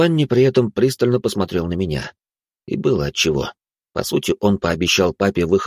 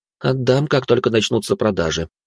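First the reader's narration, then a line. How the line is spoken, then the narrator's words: Heavy sigh. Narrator (Russian): тяжело вздохнул я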